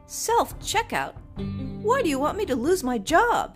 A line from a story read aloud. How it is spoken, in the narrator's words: he said, his voice pitched to carry